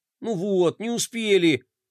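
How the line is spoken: Dejected drawl. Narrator (Russian): Уныло протянул Флай

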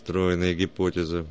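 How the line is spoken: Man grumbling. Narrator (Russian): буркнул первый дядька

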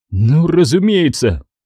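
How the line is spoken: Mumbled. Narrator (Russian): промямлил Сечел

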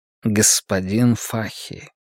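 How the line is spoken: Quiet call. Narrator (Russian): тихо окликнул Каз

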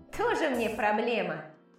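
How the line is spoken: Snort. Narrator (Russian): фыркнул Хьюстон

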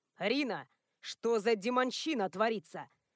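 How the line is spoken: Intimidating growl. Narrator (Russian): рыкнул он, видимо, предполагая, что этот рык заставит меня испугаться

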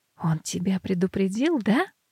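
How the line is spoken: Whispered question. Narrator (Russian): спрашиваю я шепотом

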